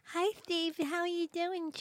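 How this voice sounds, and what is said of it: Ditzy bimbo-like voice. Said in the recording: “She talked like this ... do you really talk like this, you stupid bimbo? ... can you at least talk like a human being?”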